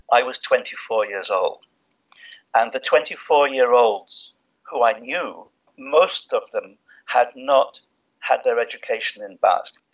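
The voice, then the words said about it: English accent. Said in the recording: “as you might guess from his accent, is English”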